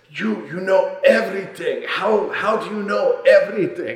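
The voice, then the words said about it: Put-on Turkish accent. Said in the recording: “I hate to have to do an accent because it's questionable, but it's just so good. He was a Turkish gentleman”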